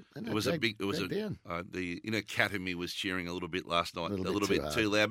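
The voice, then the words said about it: Strained, worn-out voice. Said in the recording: “my voice got a bit of a workover last night... It's not holding up ideally”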